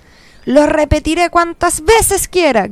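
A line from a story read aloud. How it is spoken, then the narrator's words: Shouted. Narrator (Spanish): gritó Nino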